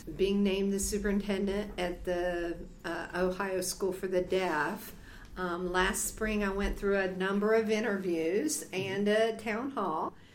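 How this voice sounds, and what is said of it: Slight Southern American accent. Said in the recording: “you have a little bit of a southern accent going ... I am from southern West Virginia. I do have that southern draw.”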